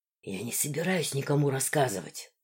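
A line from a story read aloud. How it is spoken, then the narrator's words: Whisper. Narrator (Russian): прошептал Руфус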